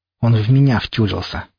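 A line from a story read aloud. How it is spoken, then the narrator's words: Through gritted teeth. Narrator (Russian): процедила Марьяна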